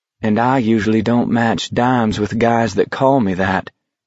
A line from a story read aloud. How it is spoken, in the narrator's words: Baker said grimly